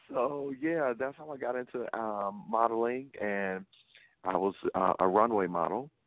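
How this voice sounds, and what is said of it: Southern Louisiana accent. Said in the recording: “you have an accent. ... I'm from the South. I'm from Louisiana. ... it is very noticeable.”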